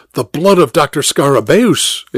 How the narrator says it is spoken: exclaimed Dr

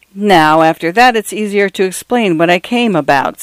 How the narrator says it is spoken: said Mr

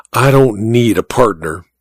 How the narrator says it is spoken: he whispered back

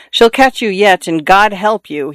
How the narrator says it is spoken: he was fond of saying

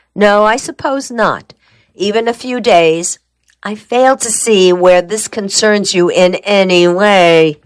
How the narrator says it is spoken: Trag said

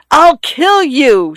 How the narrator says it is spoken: she screamed

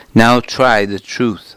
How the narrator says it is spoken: said

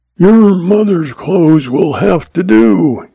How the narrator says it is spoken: he roared

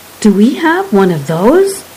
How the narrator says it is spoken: Kromlich gasped

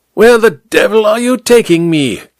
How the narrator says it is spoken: King Kong leaned close to shout the words into Amberlee's ear

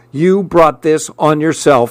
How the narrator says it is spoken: she snapped

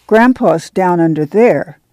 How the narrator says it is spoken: Ruthie said solemnly

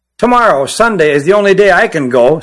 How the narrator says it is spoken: said Pat

